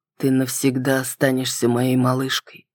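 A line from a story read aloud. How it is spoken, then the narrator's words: Tender speech. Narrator (Russian): проговорил он, ласково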